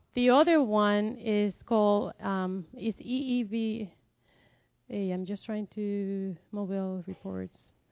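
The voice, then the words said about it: Speaks English with a noticeable accent. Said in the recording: “I'm sorry for my accent. I can't do anything about it.”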